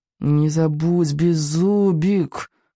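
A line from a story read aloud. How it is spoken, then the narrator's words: Through gritted teeth. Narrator (Russian): процедил Икинг сквозь зубы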